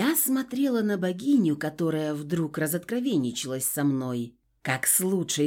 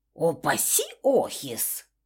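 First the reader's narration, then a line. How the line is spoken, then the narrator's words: Snorted. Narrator (Russian): фыркнула богиня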